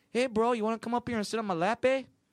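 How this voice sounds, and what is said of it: Bad Canadian accent sounding Latino. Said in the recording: “In a Latino voice. ... That was supposed to be a Canadian ... worst impressionist and voice actor of all time”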